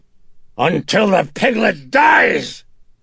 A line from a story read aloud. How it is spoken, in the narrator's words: Face contorted in sudden rage, Reagan jerked up from the pillow as she shouted in fury